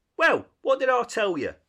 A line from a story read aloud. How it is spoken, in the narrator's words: said the rat very crossly